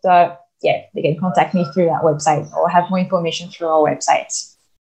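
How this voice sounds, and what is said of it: Speaker's own noticeable accent. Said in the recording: “my beautiful accent”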